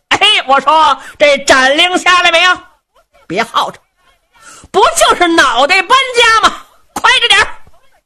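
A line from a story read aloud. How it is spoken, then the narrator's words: Shouting from outside. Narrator (Chinese): 程大爷在辕门外头喊声了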